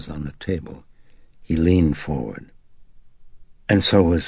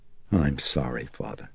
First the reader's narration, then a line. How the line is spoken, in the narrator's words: Chris murmured